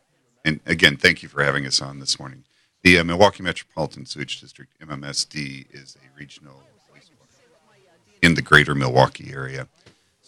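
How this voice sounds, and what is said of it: Smooth radio voice. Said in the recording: “You got that radio voice, man. You really do”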